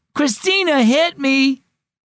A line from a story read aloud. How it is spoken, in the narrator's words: Miguel wailed